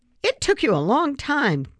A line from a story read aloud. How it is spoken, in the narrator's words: Grandpa exclaimed that night after dinner